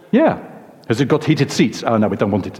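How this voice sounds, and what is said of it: Put-on South African accent. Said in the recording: “Sorry for the accent, by the way, but I'm South African in the room.”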